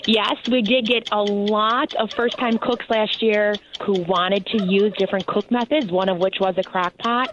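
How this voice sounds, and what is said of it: Chicago accent. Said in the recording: “a Chicago accent”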